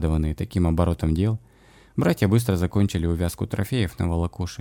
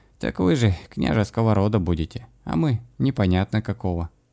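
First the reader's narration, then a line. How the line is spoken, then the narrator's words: Sorrowful sigh. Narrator (Russian): горестно вздохнул Доброслав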